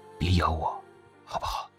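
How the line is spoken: Soft whisper in ear. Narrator (Chinese): 夏强 伏在连若汉耳边轻声说道

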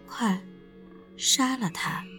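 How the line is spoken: Low, cold. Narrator (Chinese): 张雪 低声地说

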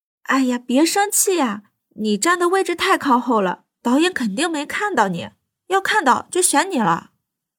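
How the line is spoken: Coaxing, ingratiating. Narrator (Chinese): 女生 讨好一笑

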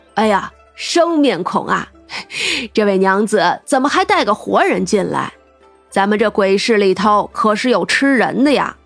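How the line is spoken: Cheerful laughing greeting. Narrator (Chinese): 大胡子笑呵呵的打招呼

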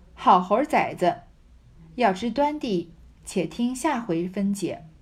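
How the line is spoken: Laughing scolding. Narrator (Chinese): 那柳家的笑骂道

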